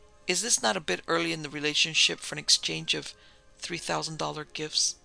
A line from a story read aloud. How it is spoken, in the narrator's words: asks gently